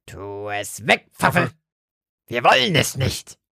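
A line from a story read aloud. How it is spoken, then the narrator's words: Croaking. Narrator (German): krächzte Lotte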